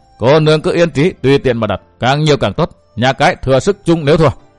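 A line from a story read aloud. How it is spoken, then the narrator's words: Loud laughing. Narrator (Vietnamese): Hiên Viên Tam Quang cười lớn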